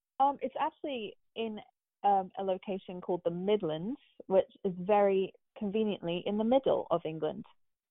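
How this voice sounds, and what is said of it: British English accent. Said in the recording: “why does she sound so funny? ... I'm originally from the UK ... I haven't lost the accent yet”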